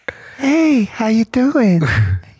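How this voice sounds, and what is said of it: Impression of the co-host's voice. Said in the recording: “Sometimes I'll do an impression of you. ... I'm working on it still.”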